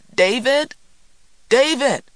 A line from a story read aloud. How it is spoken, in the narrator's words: she swung the door open and cried into the storm